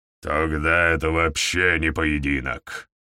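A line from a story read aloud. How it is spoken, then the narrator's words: Growling. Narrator (Russian): прорычал Гаур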